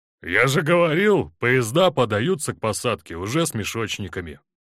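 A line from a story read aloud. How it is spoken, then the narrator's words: Grumbling. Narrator (Russian): ворчал бурмейстер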